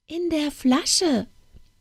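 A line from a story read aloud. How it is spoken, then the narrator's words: Thin squeaky voice. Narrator (German): sprach die feine, piepsige Stimme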